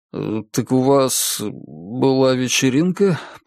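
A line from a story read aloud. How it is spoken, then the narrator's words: Mumbled. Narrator (Russian): промямлил Чип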